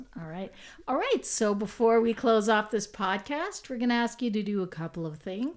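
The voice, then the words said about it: Polished radio announcer voice. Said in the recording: “Radio voice... Get off that radio voice... I'm going to kick into the radio voice”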